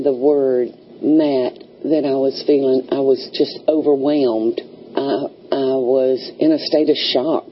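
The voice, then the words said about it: Southern American accent with twang. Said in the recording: “和一般的 American accent, neutral accent 很不一样啊 ... So the southern accent ... 南方口音一个最最大的一个特色就是有很多 就是像弹簧的声音 ... So you call it the southern twang.”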